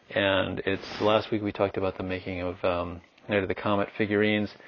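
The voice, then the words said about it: Muffled voice. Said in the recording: “my voice sounds muffled, it's because I'm wearing a mask”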